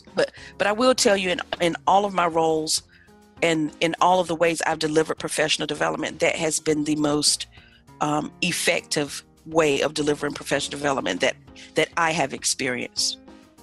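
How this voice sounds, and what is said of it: North Carolina Southern accent. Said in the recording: “I'm like hearing your accent here again ... I am proudly from a little bitty town in northeastern North Carolina”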